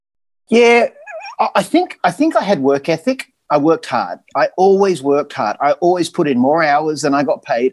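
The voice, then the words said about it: Australian accent. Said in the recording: “it was my accent ... they just loved Aussies ... I was known as the Aussie ... Just that accent helped me a lot.”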